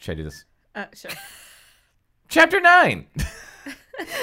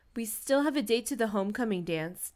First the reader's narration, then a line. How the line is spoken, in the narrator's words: Ted said